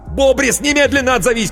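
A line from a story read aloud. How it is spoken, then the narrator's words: Shouting into phone. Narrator (Russian): кричал в трубку Коровин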